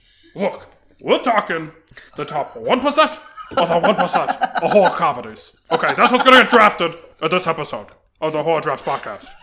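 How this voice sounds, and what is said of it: Imitates another person's voice. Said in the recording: “If you could do Bernie Sanders... that was a very good impression.”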